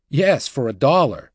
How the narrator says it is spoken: Mac exclaimed

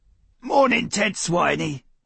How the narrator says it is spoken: he rasped

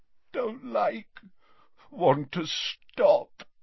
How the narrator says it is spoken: moaned Dumbledore

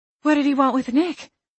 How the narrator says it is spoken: Evangeline panted as we ran into town

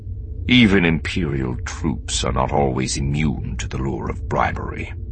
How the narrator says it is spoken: Thrawn said, his voice dark with an excellent imitation of bitter contempt

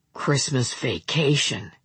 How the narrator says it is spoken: he said, but in a low voice

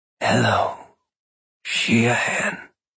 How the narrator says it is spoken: she said in a throaty rasp

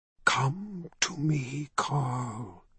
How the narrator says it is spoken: whispered in the secret ancient language

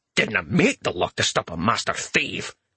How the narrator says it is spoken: the dwarf grumbled under his breath

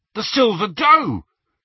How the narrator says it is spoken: He said excitedly

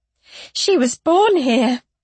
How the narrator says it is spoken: Luenna cried

